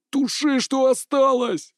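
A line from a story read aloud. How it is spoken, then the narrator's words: Pleading. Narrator (Russian): взмолился Дорант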